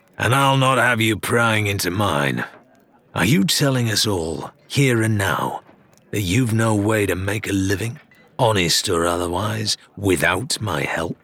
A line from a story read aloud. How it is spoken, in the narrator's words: Ramsay growled